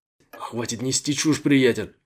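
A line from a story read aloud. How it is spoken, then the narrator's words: Angry snap. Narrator (Russian): сердито бросил Джо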